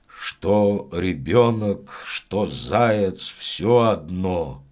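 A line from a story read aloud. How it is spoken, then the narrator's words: Stubborn mutter. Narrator (Russian): упрямо пробормотал дед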